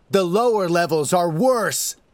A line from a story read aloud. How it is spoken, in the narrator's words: he shouts